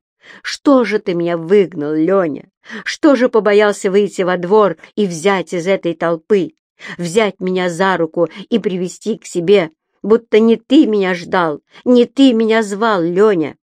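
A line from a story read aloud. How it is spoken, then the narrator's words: Mocking shout. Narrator (Russian): она, глумясь, кричала Кузнецову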